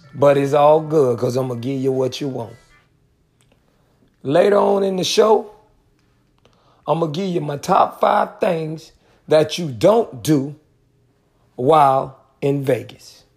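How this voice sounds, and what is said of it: Hoarse, mostly lost voice. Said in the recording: “you can probably hear it, but I lost my voice.”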